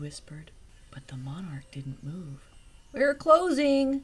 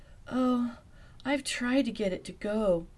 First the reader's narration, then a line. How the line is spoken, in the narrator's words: Velma moaned